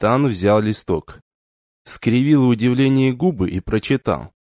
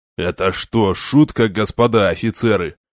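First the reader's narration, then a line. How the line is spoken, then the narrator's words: Enraged growl. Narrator (Russian): побагровел и зарычал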